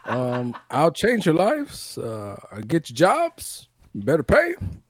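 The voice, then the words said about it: Imitates another person's voice. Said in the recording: “Good impression. That. It's been a while since Barack Obama's been on the podcast.”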